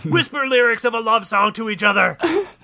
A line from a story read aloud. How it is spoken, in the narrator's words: bellowed the demon